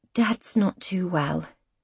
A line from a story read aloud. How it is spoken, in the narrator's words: she says softly